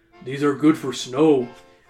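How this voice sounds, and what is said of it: Stereotyped Native American character voice. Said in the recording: “I had to do the native voice ... He's doing the native voice”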